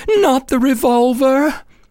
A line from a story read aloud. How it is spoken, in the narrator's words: she begged